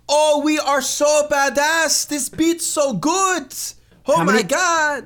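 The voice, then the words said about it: Imitates a thick foreign accent. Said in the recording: “How many is their accent that really that thick? ... The accent actually is pretty thick. I probably didn't even sound anything like him, but their accent is pretty thick. ... I think you nailed it.”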